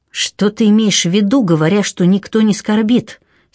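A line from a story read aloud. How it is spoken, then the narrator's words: Angry hiss. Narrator (Russian): сердито прошипела она, убедившись, что рядом нет посторонних ушей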